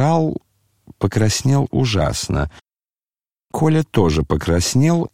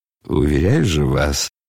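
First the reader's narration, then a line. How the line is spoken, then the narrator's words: Mutter. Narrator (Russian): пробормотал генерал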